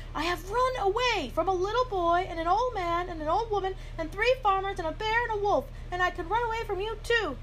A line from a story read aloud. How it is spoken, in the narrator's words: he shouted